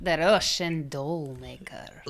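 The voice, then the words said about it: Bad attempt at Russian accent. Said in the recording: “Say it in a Russian accent for us ... That was not a Russian accent, you guys. It was bad.”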